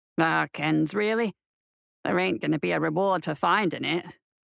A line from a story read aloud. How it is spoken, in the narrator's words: Holin grumbled